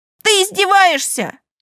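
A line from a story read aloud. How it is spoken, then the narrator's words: Yelling. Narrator (Russian): завопил он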